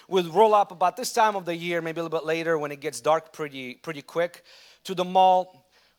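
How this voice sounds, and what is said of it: Russian accent. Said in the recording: “if I have a Russian accent now, think about 10 years ago, how terrible it was”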